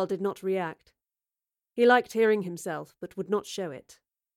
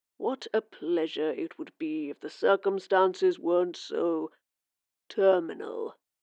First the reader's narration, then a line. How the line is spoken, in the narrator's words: purred